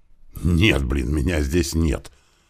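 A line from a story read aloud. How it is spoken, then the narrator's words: Irritated reply. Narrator (Russian): раздраженно ответил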